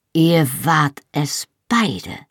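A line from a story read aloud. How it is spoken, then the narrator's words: Slow deliberate. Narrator (German): sagte ich langsam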